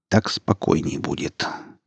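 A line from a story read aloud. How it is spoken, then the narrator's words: Quiet. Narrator (Russian): тихо сказал Гриф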